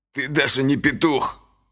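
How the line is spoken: Contemptuous words through teeth. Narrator (Russian): с невыносимым презрением процедил Крест

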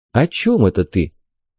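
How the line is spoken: Almost tender inquiry. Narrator (Russian): почти ласково осведомился я

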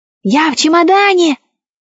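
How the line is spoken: Queen's squeaky reply. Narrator (Russian): пискнула в ответ королева

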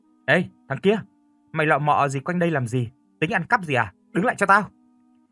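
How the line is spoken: Angry shout. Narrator (Vietnamese): Máu chó nổi lên tôi hét

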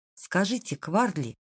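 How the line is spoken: Quiet. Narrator (Russian): тихо сказал Джим

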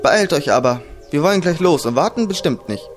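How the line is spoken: Calling out. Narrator (German): rief sie noch

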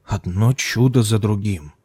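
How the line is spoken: Scribe's mutter. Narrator (Russian): пробормотал писец

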